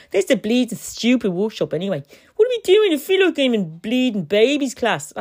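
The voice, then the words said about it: Put-on Dublin Irish accent. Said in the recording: “I'll give her an Irish accent. ... let's give her a Dublin accent. ... I've lapsed into my accent of her.”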